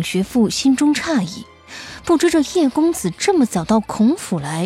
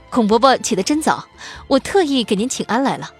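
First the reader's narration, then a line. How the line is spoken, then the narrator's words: Cheerful. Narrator (Chinese): 叶飞青笑着说道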